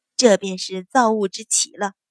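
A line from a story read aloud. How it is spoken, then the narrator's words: Faint smile. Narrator (Chinese): 阮云欢淡淡笑道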